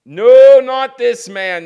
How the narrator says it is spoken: cried

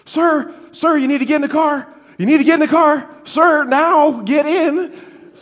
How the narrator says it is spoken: starts yelling

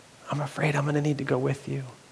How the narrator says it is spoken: he whispered into his ear quietly, he said

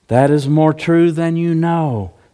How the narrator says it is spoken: said Gabriel softly from behind him

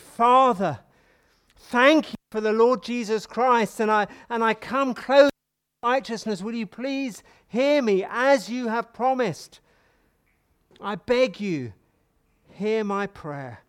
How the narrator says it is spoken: We beseech him, we plead with him, we pray earnestly, expectantly

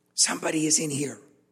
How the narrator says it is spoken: Josh whispered

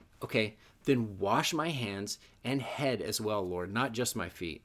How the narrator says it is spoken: Simon Peter exclaimed

